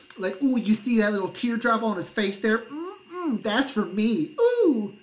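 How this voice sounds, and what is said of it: Flamboyant imitated voice. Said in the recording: “he gets so flamboyant here ... I hate doing this voice. I don't like that I'm doing this voice”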